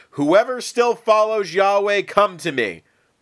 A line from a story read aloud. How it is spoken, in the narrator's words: called out